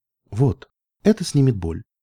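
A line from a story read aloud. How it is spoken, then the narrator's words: Soft. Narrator (Russian): мягко проговорил кто-то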